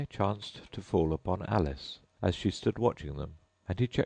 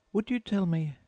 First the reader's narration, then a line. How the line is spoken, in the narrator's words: said Alice, a little timidly